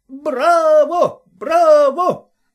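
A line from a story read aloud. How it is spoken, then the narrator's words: Shouting. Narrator (Russian): закричал яичник Пулькин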